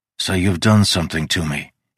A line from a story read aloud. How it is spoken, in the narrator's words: he said